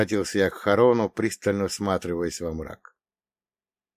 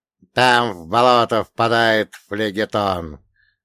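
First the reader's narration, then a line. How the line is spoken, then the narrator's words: Reluctant creaky voice. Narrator (Russian): нехотя проскрипел он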